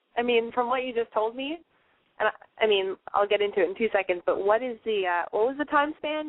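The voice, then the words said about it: Congested, stuffy voice. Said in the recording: “I've got a cold.”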